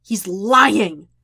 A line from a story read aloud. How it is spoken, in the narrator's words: Jet snarls